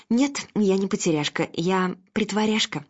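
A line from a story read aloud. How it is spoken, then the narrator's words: Plain. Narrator (Russian): ответила Анна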